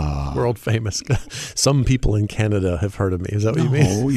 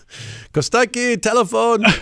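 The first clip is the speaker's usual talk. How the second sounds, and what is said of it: Greek-accented imitation of another person. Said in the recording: “Is that your Greek accent? ... Mine's terrible. ... I can just do very simple impressions of my dad.”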